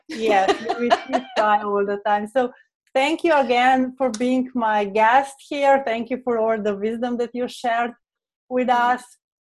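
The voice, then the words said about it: Slovene accent. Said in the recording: “with our Slovene accent”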